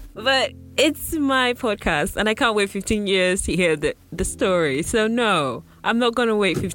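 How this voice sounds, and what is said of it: Usual voice. Nothing is said of it.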